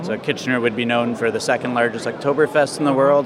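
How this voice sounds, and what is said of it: Canadian accent. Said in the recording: “I'm noticing there's a good chunk of our audience is in Canada ... they will understand my accent”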